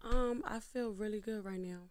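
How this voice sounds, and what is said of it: Smooth late-night radio voice. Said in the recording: “late night radio voice”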